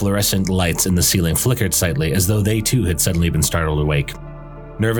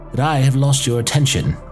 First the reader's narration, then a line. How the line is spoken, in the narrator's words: Upton said, her tone neither shifting in volume nor inflection